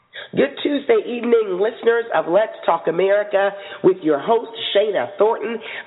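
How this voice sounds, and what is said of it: Hoarse, strained laryngitis voice. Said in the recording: “struggling with a little bit of laryngitis”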